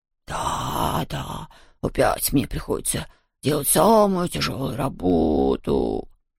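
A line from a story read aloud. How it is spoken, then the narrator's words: Groaned. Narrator (Russian): простонал Хуга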